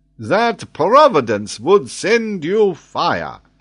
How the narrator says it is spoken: interrupted Paganel in a jovial tone

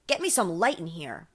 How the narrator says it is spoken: barked the investigator

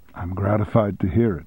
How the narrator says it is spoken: said calmly

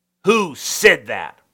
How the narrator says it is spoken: roared Khrushchev

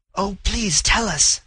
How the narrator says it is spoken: the girl whispered

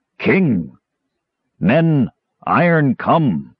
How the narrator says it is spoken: The tree man boomed

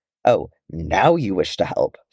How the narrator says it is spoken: Thorin snarled

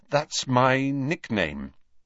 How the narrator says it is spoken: said

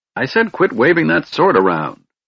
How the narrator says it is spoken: Fizban snapped irritably

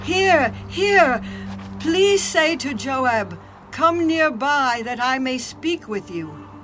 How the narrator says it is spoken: a wise woman cried out from the city

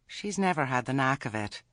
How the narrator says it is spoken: said Nanny weakly

